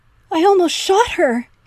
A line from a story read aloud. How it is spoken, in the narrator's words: Henry wailed from the dining room